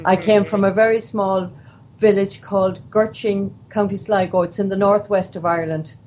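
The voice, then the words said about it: Irish accent. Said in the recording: “you are from Ireland. Everyone can tell from your accent”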